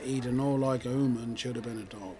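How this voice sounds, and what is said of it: Put-on Cornish accent. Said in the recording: “promoting your show in a Cornish accent”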